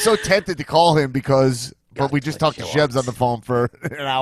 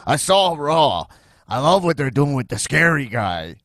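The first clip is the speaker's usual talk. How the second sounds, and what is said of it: Impression of speaker's father. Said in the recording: “I'll just do an impression. My dad's like”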